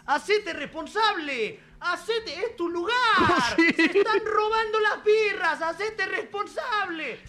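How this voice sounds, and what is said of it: Put-on River Plate Spanish accent. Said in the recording (Spanish): “haga ese acento ... No, suena bien ... está bien hecho”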